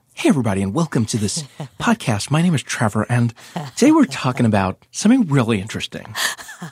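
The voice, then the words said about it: Polished podcast host voice. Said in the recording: “This is my podcast voice. ... I think you're nailing it. ... My dream has always been to have the podcast voice.”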